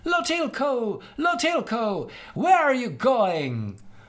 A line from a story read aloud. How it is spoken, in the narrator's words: Tevente shouted after him